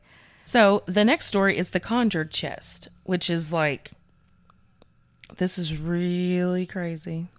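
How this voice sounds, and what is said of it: Strained, struggling voice. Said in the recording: “sorry about my voice, y'all, because it's struggling today”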